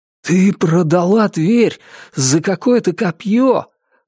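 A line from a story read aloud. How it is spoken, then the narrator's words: Exclaiming. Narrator (Russian): воскликнул Ричард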